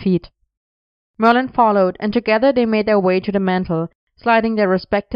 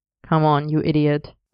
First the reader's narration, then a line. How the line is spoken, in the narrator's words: Arthur murmured